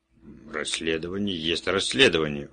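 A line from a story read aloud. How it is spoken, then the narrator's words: Defiant tone. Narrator (Russian): вызывающим тоном сказал Кремер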